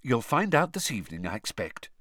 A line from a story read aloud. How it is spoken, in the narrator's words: said Mrs